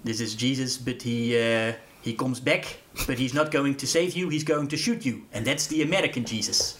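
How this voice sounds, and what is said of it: Imitates another person's accented English. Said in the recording (Dutch): “Goed accent erbij”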